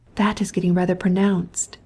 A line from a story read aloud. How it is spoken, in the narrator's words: said a lady, in a whisper